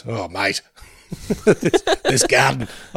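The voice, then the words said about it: Imitates another person's voice. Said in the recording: “giving your dad that voice.”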